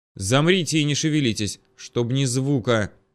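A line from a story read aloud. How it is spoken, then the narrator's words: Hissed. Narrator (Russian): прошипел я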